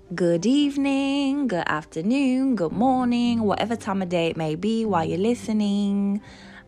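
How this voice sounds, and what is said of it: Put-on British accent. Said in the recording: “my most authentic British accent ... I'll try my best not to break character”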